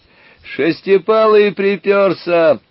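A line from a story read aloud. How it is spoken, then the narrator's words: Cheerful distant shout. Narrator (Russian): весело закричал кто-то впереди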